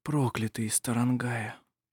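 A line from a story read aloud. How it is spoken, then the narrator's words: Whisper. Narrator (Russian): прошептал он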